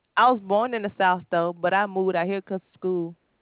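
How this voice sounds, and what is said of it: Southern US accent. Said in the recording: “You from the South? You got an accent. An accent. ... You still got your accent. You have your South accent.”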